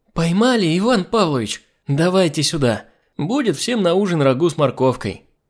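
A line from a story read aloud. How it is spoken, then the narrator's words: Housekeeper shouting joyfully. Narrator (Russian): Домработница радостно закричала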